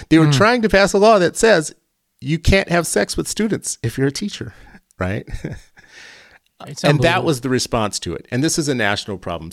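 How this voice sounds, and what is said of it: Animated, agitated delivery. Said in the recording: “you can hear it in my voice, talk about being animated”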